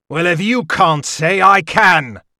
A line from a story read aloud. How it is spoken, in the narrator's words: he roared